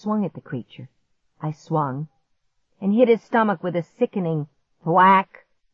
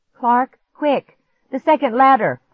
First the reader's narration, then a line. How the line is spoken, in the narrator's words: I cried